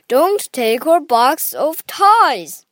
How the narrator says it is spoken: cried Grandpa

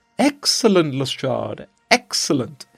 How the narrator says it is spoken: he cried

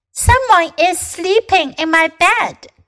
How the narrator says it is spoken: cried Baby Bear

